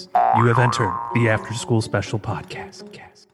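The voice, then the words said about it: Poor Rod Serling impression. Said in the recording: “terrible Rod Serling impression”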